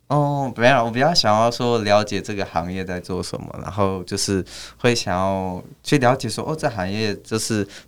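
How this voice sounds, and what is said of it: Distinctive Malaysian-sounding Mandarin accent. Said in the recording (Chinese): “你的口音听起来还蛮那个的，蛮特别的 ... 如果你做 podcast 的话，应该大家会把你当成是马来西亚的”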